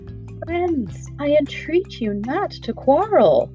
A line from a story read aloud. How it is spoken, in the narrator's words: pleaded the Tin Woodman anxiously